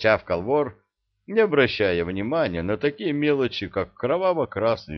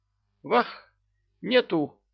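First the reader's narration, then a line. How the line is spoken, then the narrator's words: Toothless mumble. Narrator (Russian): Прошамкал он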